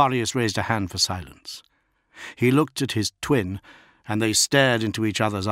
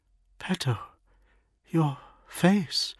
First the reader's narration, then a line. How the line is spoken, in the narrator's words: she whispered